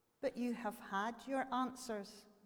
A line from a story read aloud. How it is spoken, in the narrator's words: the hermit replied